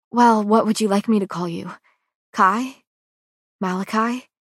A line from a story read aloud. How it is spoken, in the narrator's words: My voice sounds so breathy